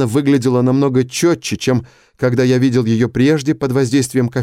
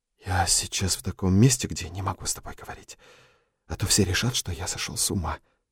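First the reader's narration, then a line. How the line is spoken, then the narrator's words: Whisper. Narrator (Russian): прошептал я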